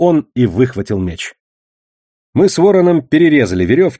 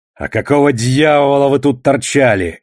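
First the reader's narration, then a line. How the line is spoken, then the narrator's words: Growling. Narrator (Russian): рычал Душилов на свои жертвы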